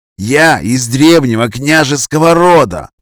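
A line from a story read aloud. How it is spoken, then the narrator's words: Young man hissing. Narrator (Russian): прошипел юный Грозовой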